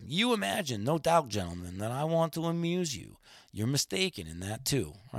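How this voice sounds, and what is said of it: Reads a quote in a put-on accent. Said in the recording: “with your accent there ... made him come to life for me”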